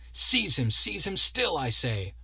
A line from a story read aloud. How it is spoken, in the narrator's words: cried the abbot in furious chafe